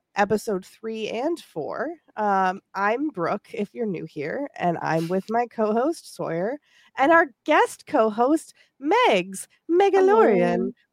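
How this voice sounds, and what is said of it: Sick-sounding voice. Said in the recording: “I'm also sick, if you can't tell from my voice.”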